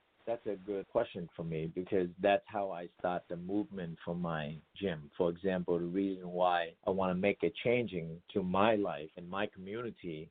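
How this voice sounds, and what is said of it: Slight foreign accent. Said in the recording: “coming from a different background, still carrying a little bit of an accent.”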